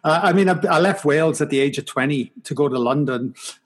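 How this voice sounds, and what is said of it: Mild Welsh accent. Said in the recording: “I'm from Wales. I have an accent ... It's not that strong anymore ... it's very mild”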